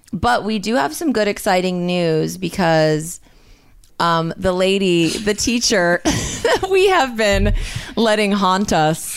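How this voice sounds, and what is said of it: Tinny voice from illness. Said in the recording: “my voice is tinny more than per usual”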